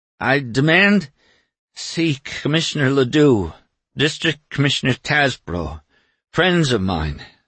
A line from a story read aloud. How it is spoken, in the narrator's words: stammered Doremus